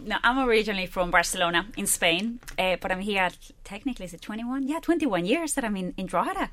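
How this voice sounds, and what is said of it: Foreign accent. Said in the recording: “That lovely accent.”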